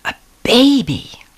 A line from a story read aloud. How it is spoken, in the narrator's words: We both cried it at the same time, and Mother's face was just beaming with joy